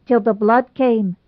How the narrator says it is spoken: added Pringle solemnly

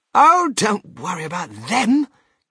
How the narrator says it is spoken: cried Mr

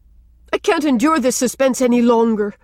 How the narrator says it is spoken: said Rilla desperately

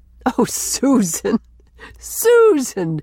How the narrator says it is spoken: he gasped

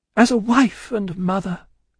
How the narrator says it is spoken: cried Lucy, most earnestly

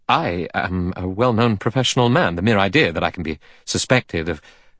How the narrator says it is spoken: Armstrong said quickly

